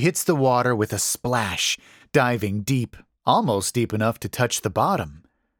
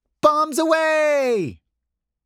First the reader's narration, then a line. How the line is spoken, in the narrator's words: She jumps off, yelling